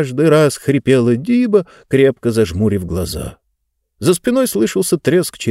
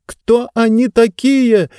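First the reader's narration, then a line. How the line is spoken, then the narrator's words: Shouted into ear. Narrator (Russian): прокричала Занна на ухо бегущему по крыше Джонасу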